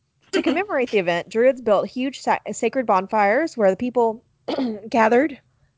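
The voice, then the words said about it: Strained, failing hoarse voice. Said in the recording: “I'm losing my voice.”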